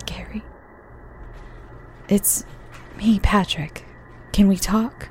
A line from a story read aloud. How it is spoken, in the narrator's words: quietly said